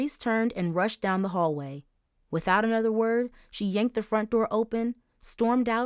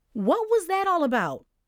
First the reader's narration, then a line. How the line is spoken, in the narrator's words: Mom yelled sleepily from her room